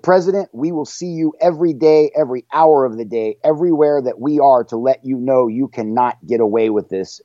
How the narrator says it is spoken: she yelled

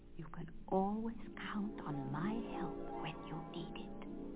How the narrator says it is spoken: Marie whispered to Nutcracker

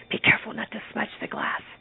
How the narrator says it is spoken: Mama whispered

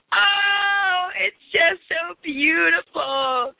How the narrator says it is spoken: cried Miss Flora McFlimsy

